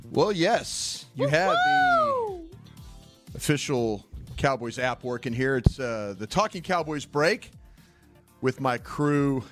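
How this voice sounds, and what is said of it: Polished professional radio announcer voice. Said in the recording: “this dude come with his professional voice I've never heard ... radio voice? You like my radio voice?”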